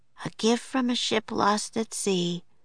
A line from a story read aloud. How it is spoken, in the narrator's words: she said softly